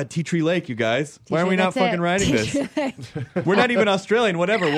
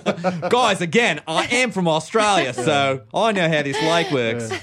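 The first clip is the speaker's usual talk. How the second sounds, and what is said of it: Weak put-on Australian accent. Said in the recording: “You could do an Australian accent. ... Not a good one. ... It's a hard accent.”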